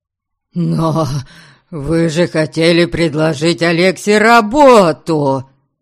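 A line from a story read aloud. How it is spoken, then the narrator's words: Dismayed, surprised wail. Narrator (Russian): обескураженно взвыл мой отец, явно не ожидавший, что гость примет сторону Дориана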